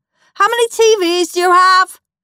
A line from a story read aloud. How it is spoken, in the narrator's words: shouted Horrid Henry